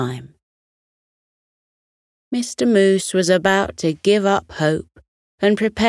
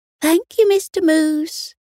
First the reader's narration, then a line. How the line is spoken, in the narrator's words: all chirped together